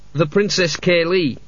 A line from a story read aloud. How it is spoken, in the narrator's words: he said wearily